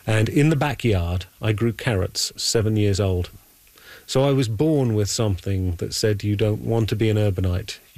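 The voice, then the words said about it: London English accent. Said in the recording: “you can tell from my accent, I grew up in London, England”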